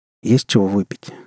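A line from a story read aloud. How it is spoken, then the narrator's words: Plain. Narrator (Russian): спросил Рон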